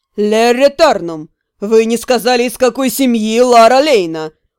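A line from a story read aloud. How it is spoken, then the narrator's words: Cold drawling male voice. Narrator (Russian): Холодно протянул мужской голос со второго ряда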